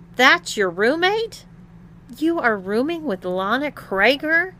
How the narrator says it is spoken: exclaimed Tom

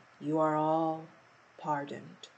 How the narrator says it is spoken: Alice heard the King say in a low voice

